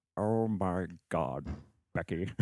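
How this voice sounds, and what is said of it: Alan Rickman as Hans Gruber impression. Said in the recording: “this is Alan Rickman as Hans Gruber”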